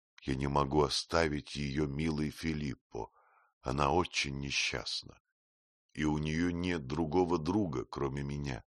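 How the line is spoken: Sad but firm. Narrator (Russian): Печально, но твердо говорила ему Афра

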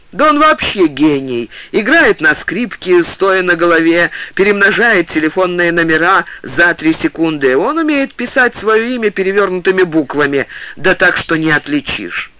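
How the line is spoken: Laughing shout. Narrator (Russian): Павел Павлович захохотал и крикнул через плечо

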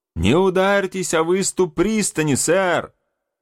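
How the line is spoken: Shout. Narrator (Russian): крикнул я

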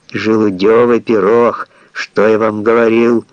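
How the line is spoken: Bear's growl. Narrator (Russian): зарычал гризли

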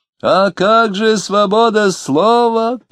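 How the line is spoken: Shouting. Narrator (Russian): крикнул некий остроумец

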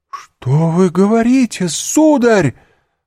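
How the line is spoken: Distressed exclamation. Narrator (Russian): воскликнула госпожа де Вильфор, ломая руки

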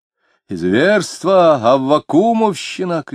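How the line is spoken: Shouted. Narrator (Russian): кричал он

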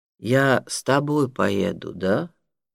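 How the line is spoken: Plain. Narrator (Russian): спросил Тенгиз

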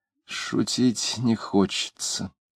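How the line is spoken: Quiet, vague. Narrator (Russian): женщина тихо и неопределенно сказав

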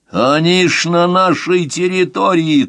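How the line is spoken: Shouted. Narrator (Russian): крикнул Рычков

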